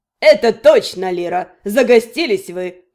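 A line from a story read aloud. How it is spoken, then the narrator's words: Man, smirking. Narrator (Russian): хмыкнул мужчина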